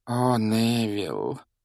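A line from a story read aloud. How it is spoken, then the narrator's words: Elderly woman's heavy sigh. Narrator (Russian): тяжело вздохнула пожилая женщина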